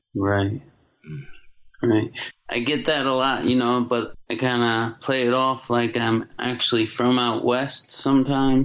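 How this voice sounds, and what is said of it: Western US accent, slow cadence. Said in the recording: “my accent ... you sound like you're from out west ... my slow cadence”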